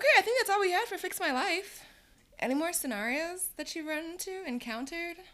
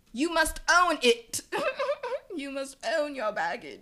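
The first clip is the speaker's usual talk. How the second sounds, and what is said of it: Put-on British accent. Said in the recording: “Are you putting the yeah, British accent I'm, on it? I am.”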